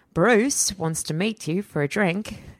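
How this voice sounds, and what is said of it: Slight put-on Australian accent. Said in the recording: “that was a bit of an Aussie accent there.”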